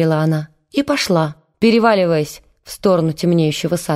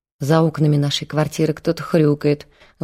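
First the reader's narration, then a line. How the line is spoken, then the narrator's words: Sighing. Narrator (Russian): вздохнула она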